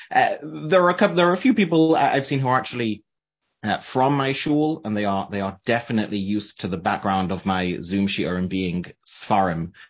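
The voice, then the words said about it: Manchester English accent. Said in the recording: “I'm from Manchester, England. In case you're wondering where to place the accent”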